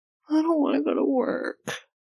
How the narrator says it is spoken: Jisung whines for the sake of complaining

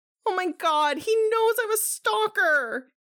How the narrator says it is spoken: Jisung sobs

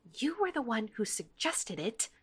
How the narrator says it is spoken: Glimmer hisses

